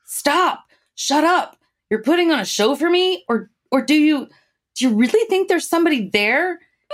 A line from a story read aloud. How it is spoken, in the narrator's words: Locke yells